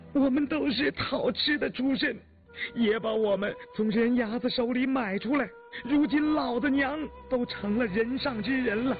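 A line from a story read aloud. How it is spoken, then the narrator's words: Girls crying while speaking. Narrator (Chinese): 踏边捧金质的两个丫头已经扑的跪倒，磕着头连哭带说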